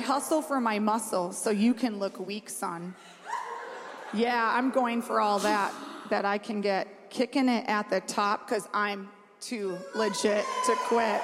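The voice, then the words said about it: Rapping in a Minnesota accent. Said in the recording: “My Minnesota accent ... I really pulled out your Minnesota accent too in the midst of that rapping”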